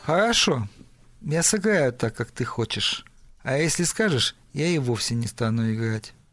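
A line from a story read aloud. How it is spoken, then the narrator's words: Gloomy. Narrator (Russian): мрачно сказал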